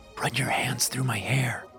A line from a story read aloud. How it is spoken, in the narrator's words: I whispered